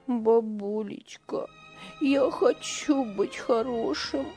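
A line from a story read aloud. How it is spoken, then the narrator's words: Boy sobbing. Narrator (Russian): всхлипывал мальчик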